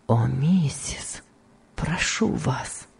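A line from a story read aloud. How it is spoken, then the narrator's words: Weak voice. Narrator (Russian): сказал Том слабым голосом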